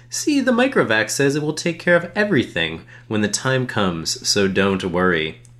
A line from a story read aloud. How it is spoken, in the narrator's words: said cheerfully